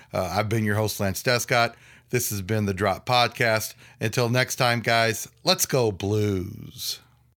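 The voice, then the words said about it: Sick voice, off in pitch. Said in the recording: “my voice is kind of off and I've had some issues with pitch ... I've been sick with that flu or cold”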